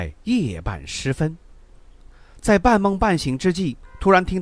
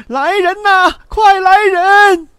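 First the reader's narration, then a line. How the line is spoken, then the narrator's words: Shout. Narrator (Chinese): 这一喊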